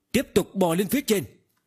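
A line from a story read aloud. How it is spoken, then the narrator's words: Sudden loud yell. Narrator (Vietnamese): Tần Mục đột nhiên lớn tiếng hét lên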